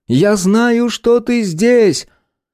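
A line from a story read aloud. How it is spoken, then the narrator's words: Shout. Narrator (Russian): Герти крикнула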